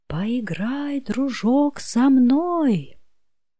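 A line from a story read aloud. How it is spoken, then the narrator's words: Squeaky little mouse. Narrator (Russian): пропищал мышонок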